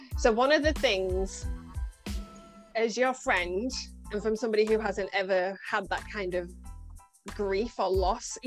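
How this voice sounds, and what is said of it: Scunthorpe English accent. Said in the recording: “you bring me back to good old Scunny. My accent will get stronger the more I talk to you.”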